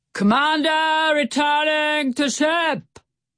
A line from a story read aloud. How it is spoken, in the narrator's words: He roared so loudly